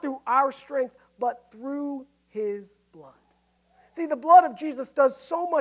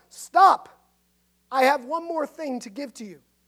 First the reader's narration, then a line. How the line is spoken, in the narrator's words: Wesley called out